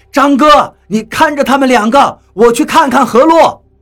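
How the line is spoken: Startled shout. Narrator (Chinese): 我心中一惊，对张广川喊道

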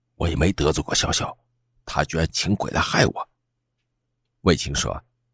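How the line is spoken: Low, suppressed anger. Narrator (Chinese): 我压着满肚子的火气，低声说

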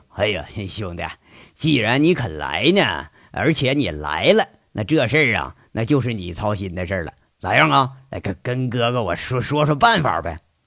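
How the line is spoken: Cheerful, laughing. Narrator (Chinese): 瞬间也乐呵呵，陪着杨伟笑了，说一句

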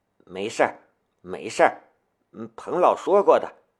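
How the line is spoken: Mumbled reassurance. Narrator (Chinese): 他只能嘟囔着安慰王坤

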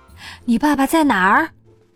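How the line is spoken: Breathless question. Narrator (Chinese): 他气喘吁吁地问

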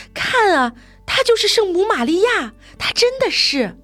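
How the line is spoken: Young mother shouting. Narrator (Chinese): 那个年轻的母亲对着人群大喊

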